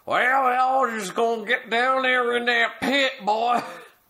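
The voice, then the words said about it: Put-on old-fashioned slave-owner accent. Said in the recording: “they literally talk like slave owners ... this accent”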